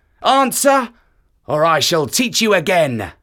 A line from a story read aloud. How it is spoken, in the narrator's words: roared Kotick